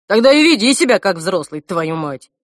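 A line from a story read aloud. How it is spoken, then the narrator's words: Grumbling. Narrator (Russian): проворчал Альф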